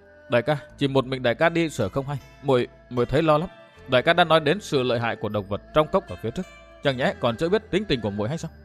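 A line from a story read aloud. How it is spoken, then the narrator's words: Frightened voice. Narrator (Vietnamese): Đỗ Nhất Nương nói với giọng hoảng sợ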